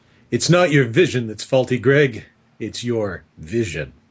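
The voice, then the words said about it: Imitates another person's voice. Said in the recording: “that's the best Walter Bosley impression I can come up with”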